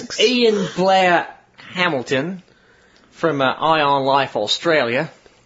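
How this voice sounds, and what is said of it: Put-on Australian accent, not bad. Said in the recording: “my best Australian accent. ... It's not bad.”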